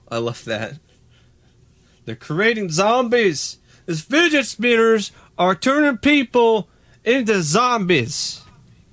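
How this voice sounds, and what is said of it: Put-on redneck accent. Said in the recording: “your redneck accent is improving ... the more you practice.”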